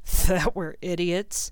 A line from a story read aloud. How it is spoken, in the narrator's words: said gloomily